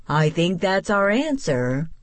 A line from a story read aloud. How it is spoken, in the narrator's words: he laughed